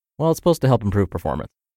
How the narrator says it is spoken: I quickly muttered

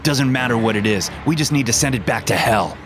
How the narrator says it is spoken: he yelled as he ran towards the beast

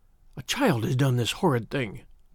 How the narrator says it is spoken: I said in a whisper

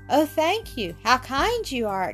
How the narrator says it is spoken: exclaimed Ethel joyously

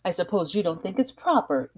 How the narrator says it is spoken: Daisy exclaimed

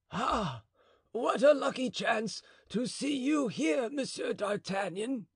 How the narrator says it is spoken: cried the falconer

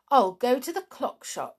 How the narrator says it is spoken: said Jolly cheerfully

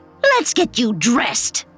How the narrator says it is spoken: She snapped

